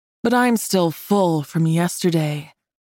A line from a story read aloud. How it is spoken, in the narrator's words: he breathed